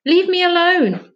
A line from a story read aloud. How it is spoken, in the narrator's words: panted Charlie